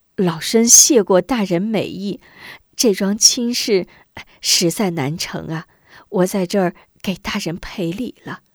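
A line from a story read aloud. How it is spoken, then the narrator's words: Apologetic ingratiating laugh. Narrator (Chinese): 吴夫人赶紧陪笑道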